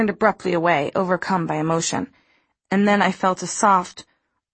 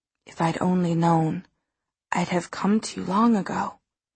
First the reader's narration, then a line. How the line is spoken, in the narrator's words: he said very softly